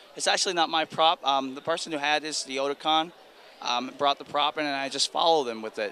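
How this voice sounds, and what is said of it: Strained, hoarse voice. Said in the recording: “I've lost my voice because this voice is very straining, but it's very sexy.”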